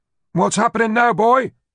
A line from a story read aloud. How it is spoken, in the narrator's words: Philip asked, anxiously